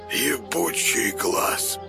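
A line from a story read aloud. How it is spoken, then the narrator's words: Hoarse croak. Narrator (Russian): прохрипел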